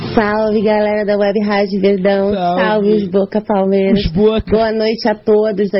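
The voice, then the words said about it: Rio de Janeiro accent. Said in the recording (Portuguese): “Aqui no estado do Rio há 14 anos. Então vocês sabem, né? É meio difícil você não pegar o sotaque do pessoal aqui.”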